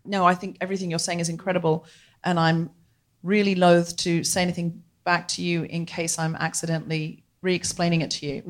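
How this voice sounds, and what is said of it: British accent. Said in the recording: “You have a British accent ... It's just going to sound better.”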